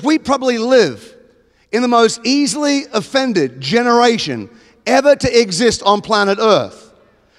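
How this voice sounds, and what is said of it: Australian accent. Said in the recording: “the Australian one ... I'm an Australian.”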